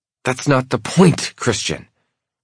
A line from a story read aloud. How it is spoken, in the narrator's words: she hisses